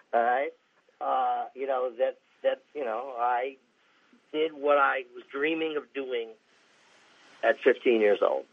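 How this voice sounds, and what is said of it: Choked-up, emotional voice. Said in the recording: “I'm getting choked up right now.”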